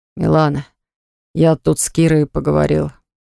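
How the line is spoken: Hoarse rasp. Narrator (Russian): прохрипел

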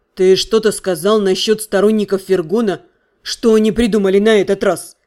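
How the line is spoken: Grim, grinning. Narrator (Russian): Дэниел мрачно осклабился

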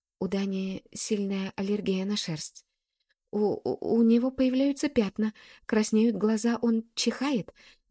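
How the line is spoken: Stammering rapid chatter. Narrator (Russian): заикаясь, тараторит

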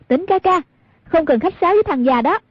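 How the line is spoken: Calling out. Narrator (Vietnamese): Hoàng Dung kêu lên

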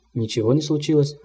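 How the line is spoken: Plain reply. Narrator (Russian): ответил молодой доктор

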